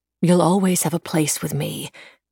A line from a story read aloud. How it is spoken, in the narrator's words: Emily said